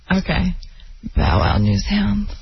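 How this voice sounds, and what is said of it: Sultry, sexy voice. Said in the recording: “in a sexy voice”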